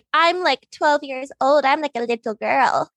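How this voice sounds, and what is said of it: Baby voice. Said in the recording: “your baby voice”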